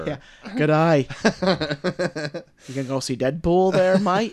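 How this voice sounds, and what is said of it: Very bad put-on Australian accent. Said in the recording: “the shittiest Australian accent ever”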